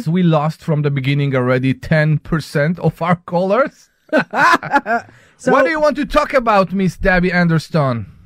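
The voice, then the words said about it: Speaks with a non-native accent. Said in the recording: “every time you make fun of my accent ... your accent is sometimes in the wrong spaces”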